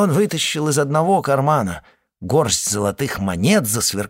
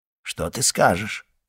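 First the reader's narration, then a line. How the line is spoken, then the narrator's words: Quiet question. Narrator (Russian): тихо спросил он ее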